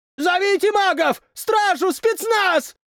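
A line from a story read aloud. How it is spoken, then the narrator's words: Shouting. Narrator (Russian): прокричал кто-то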